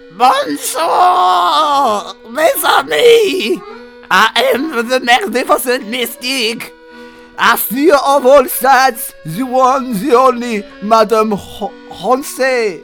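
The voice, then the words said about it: Thick gravelly French accent, loud cackle. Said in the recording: “In a thick French accent made gravelly from countless packets of Galloise ... addressed us, the audience, in a loud cackle”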